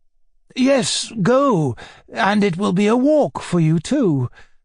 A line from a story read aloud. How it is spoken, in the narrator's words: the old man added